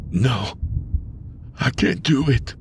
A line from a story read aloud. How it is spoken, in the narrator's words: Tony whispered